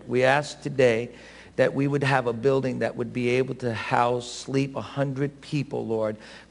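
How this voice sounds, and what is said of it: Bronx accent. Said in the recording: “as you hear him speak and you know that there's an accent, that is a Bronx accent. ... he is from the Bronx.”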